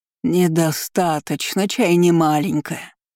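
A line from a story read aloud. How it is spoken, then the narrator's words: Witch's thundering voice. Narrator (Russian): прогремел в воздухе ведьмин голос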